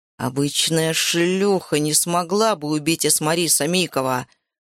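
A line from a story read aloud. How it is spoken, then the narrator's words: Growled. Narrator (Russian): прорычал он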